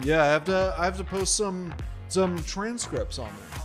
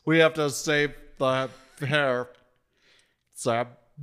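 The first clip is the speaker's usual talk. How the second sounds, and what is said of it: Nicolas Cage impression. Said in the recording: “good Nicolas Cage impression”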